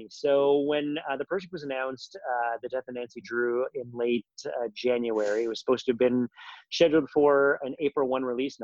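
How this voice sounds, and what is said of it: Canadian accent. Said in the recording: “I'm Canadian, if you haven't been able to recognize the accent.”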